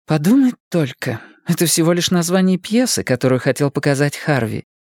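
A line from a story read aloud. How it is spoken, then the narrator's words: Sighing. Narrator (Russian): вздохнула Анна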